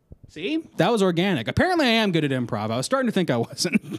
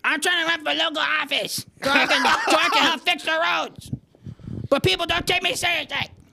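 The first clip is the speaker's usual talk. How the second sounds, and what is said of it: Cartoon child character voice. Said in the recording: “he incidentally has Cartman's voice ... I didn't know you could do that impression ... I do kind of do Cartman voice ... That's kind of like the baby voice ... a good Cartman impression”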